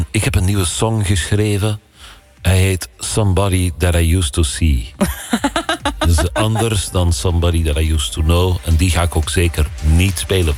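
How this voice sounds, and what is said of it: Bad put-on Flemish accent. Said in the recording (Dutch): “je praat dus met een Vlaams accent, want hij komt uit België. ... Dat was een slecht accent”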